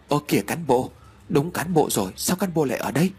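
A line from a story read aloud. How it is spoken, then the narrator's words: Startled shaky voice. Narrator (Vietnamese): thót tim, run rẩy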